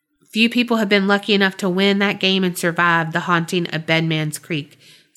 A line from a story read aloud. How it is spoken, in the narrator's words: Susan said